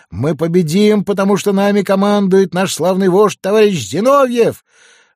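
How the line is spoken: Young men shouting. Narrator (Russian): На митингах в Питере молодые военные карьеристы кричали

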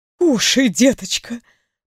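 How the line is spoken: Whispering. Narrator (Russian): прошептала она

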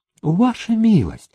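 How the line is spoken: Quiet whisper. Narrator (Russian): тихо прошептал служитель

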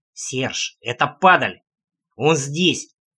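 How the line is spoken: Growled through clenched teeth. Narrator (Russian): сквозь плотно стиснутые зубы рычал Трэмп

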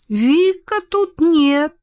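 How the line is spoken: Thin little voice. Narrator (Russian): наконец ответил тот тоненьким голоском

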